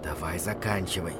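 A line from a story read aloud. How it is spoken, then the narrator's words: Whisper. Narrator (Russian): прошептал я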